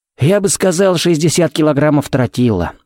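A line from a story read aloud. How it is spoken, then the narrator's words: Snorting. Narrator (Russian): хмыкнул Феникс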